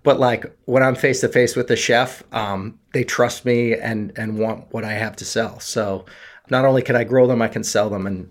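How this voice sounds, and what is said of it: Nervous-sounding voice. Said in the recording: “I'm nervous right now. I can hear it in my own voice”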